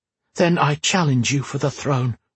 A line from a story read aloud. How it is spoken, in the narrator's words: Whisper said defiantly